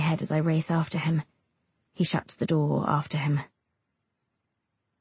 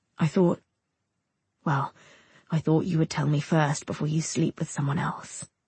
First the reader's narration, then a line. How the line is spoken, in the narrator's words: he says gently